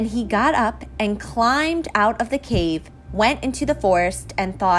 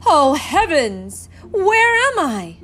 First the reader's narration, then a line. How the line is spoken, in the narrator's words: exclaimed